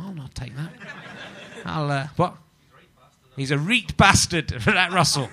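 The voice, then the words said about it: Imitation with put-on Newcastle accent. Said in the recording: “my little impression of you there? I made you something from Newcastle for some reason.”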